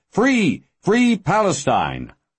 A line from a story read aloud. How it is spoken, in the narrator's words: cheers and shouts of